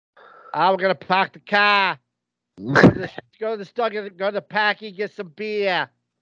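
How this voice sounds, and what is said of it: Put-on Boston accent. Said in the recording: “Me your best Boston accent”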